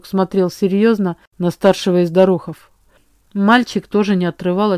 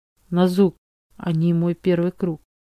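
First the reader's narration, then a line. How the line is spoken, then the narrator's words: Quiet speech. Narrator (Russian): тихо проговорила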